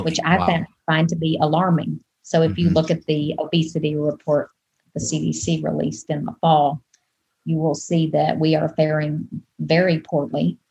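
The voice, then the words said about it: Southern US Deep South accent. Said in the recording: “you can probably tell from my accent that I'm not from here. I'm originally from the Deep South, from Arkansas”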